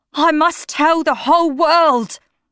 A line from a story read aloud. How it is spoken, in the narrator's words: Septimus cried